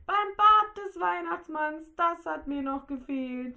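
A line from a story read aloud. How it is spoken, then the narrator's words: Whining. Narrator (German): jammerte Rudi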